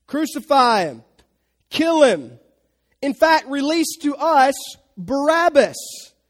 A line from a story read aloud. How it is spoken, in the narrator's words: They begin to shout